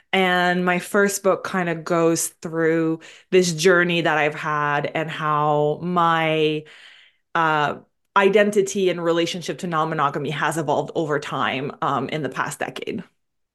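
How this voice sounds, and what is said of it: French Canadian accent. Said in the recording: “I'm originally from Montreal. I'm French Canadian. Sometimes people wonder the accent.”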